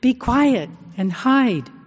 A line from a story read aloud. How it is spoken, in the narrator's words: realizes they are shouting and tries to whisper